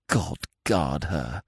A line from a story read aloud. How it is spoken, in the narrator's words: he whispered